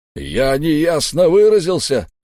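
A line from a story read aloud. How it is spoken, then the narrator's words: Roar. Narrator (Russian): взревел Дувал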